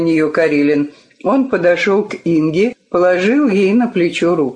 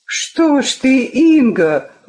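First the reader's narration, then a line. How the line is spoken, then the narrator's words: Exclaiming. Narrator (Russian): воскликнула Вика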